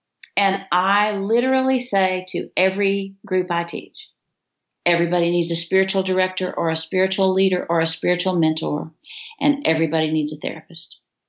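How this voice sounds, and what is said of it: West Texas accent. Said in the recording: “I have this West Texas accent that I'm glad you appreciate, but most people after 8 hours of teaching find it a little rough.”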